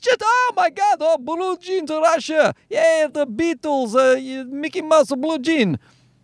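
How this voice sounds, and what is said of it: Bad put-on Russian accent. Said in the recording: “that horrible Russian accent”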